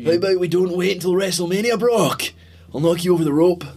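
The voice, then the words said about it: Scottish accent drifting toward American. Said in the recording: “My Scottish accent is kind of American now... It's kind of going a wee bit transatlantic... It was a bit American”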